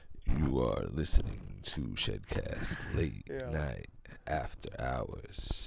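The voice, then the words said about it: Smooth strip club DJ voice. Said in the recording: “radio voice? That's just like strip club DJ voice”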